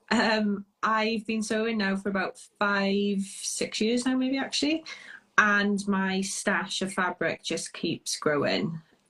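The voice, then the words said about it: Welsh accent. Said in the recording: “I'm Welsh. My accent slightly gives it away.”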